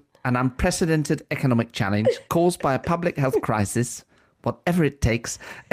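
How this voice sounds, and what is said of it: Camp, showbiz West End-style voice. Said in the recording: “my Rishi Sunak impression. It's not quite there yet. He sounds quite camp, doesn't he? ... I've made him slightly showbiz. ... made him very West End musical.”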